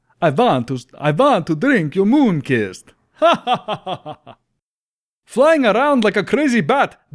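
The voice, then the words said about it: Put-on Russian accent. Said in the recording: “I started to get a little Russian at the end of this ... I should have started with that to get into the accent.”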